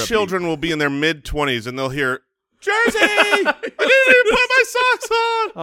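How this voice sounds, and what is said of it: Voice rises to higher pitch. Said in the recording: “Why did your voice get higher?”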